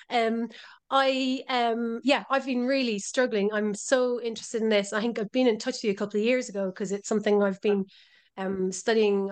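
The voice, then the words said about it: Irish brogue accent. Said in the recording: “I'm just the tail end of COVID, so excuse my even more dulcet Irish brogue.”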